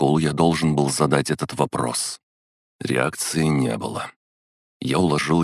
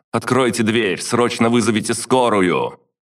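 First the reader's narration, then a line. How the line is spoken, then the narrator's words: Loud yelling. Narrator (Russian): орал я громко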